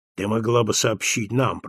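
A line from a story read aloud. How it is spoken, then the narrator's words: Grumbling mutter. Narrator (Russian): пробурчал Беллами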